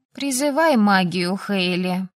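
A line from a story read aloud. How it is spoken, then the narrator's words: Sighed. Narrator (Russian): вздохнула подруга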